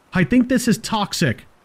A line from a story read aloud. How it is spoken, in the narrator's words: I snapped